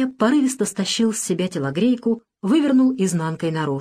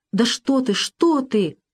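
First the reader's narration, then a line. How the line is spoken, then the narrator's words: Flustered exclamation. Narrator (Russian): заполошно воскликнул Александр Сергеевич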